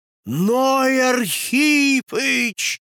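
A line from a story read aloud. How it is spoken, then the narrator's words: Anticipatory groaning crowd. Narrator (Russian): застонала толпа в предчувствии великих событий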